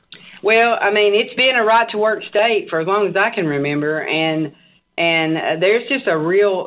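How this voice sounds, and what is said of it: Tennessee Southern American accent. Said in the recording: “So where are you originally from ... I'm from Chattanooga, Tennessee ... Somehow I could tell that ... I don't think I have an accent, but everybody says I do”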